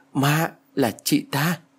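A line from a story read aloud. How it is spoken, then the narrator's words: Stammering. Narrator (Vietnamese): Tôi lắp bắp chỉ tay về phía chị ta rồi nói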